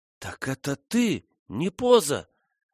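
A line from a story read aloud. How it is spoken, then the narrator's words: Halting exclamation. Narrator (Russian): воскликнула Фрона, с трудом подыскивая слова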